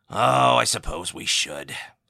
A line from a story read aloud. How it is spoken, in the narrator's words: sighed the Admiral